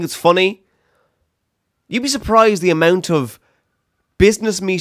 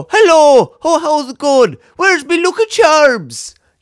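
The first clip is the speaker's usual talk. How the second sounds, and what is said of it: Badly mocked Irish accent. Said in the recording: “people take the piss out of the Irish accent all the time... accent done bad”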